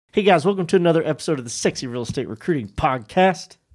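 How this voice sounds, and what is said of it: Voice sounds off, not normal. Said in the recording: “I'm the ambassador of allergies ... my voice is just it's almost ... How come you sound normal?”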